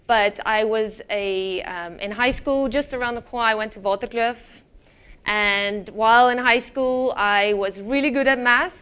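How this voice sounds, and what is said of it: South African accent, partly Americanized. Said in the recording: “I am actually South African, and ek is eintlik Afrikaans. So, my accent has been adapted since I moved to the US”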